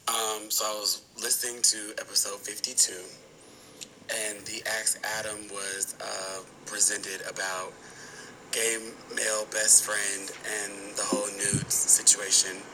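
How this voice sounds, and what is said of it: Strained, hoarse voice. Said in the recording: “Sorry about my voice. I went to a concert, was yelling”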